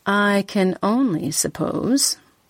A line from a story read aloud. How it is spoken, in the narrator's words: I said quite dryly